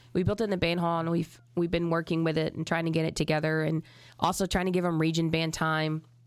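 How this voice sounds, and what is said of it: Sick-sounding voice. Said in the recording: “I've been sick for a little while. As you can tell in my voice.”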